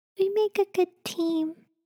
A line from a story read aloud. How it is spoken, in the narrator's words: she said softly